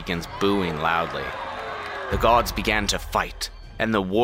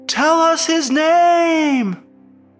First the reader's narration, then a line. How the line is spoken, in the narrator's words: somebody in the crowd shouts again